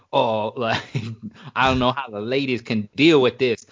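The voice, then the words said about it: Put-on accent, disguised voice. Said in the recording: “what was that accent? ... I was just trying to make it not sound like me.”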